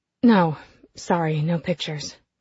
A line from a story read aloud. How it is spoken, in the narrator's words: I mumble